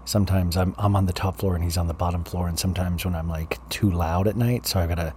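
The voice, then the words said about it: Whispering. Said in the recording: “I'm kind of whispering”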